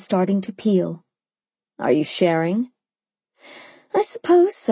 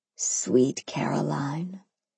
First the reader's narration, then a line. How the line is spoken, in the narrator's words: whispered through his grin